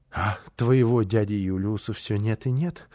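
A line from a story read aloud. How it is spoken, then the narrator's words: Sighing. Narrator (Russian): вздохнула она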